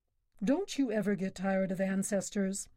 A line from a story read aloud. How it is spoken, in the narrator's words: He cried